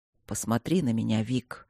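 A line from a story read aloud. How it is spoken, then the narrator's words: Surprisingly gentle request. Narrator (Russian): попросил Мартин удивительно мягко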